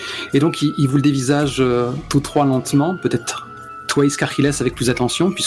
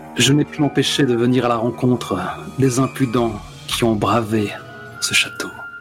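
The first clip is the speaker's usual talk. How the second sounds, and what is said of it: Heavy, sensual low voice. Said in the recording (French): “d'une voix lourde de sensualité”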